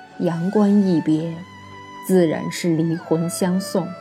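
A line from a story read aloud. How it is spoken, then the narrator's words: Murmured. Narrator (Chinese): 萧玉伦喃喃道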